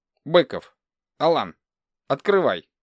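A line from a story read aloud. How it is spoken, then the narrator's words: Curt clipped speech. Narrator (Russian): Отрывисто произнес человек, который только что говорил со мной по телефону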